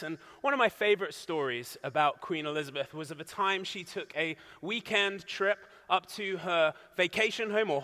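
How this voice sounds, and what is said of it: British accent. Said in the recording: “She was my queen, if you can hear from my accent.”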